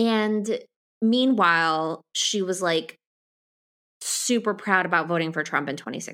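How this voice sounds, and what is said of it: Usual voice. Nothing is said of it.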